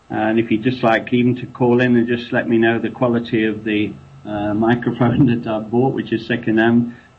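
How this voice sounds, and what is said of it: English accent. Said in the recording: “I've got that English accent”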